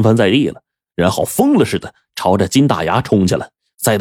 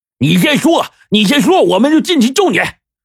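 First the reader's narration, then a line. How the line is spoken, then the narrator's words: Hurried shout from outside. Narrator (Chinese): 金大牙连忙在外面高喊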